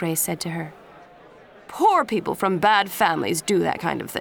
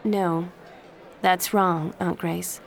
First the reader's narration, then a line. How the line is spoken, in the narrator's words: Jen said calmly